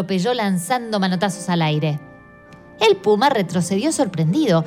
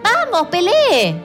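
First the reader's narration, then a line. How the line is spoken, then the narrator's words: Hurried shout, louse. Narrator (Spanish): gritó el piojo atropellando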